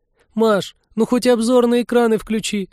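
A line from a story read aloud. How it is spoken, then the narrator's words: Pleading. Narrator (Russian): взмолилась Полина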